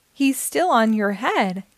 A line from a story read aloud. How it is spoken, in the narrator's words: giggled Leah